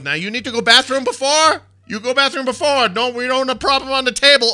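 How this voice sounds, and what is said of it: Loud yelling imitation of accented speaker. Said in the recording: “doing an exact impression of what she was yelling ... It did sound like my angry Korean sister-in-law ... just so turned up to 12”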